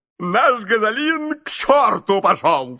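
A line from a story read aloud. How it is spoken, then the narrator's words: Thrilled, horrified shout. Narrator (Russian): с восторгом и ужасом крикнул мистер Адамс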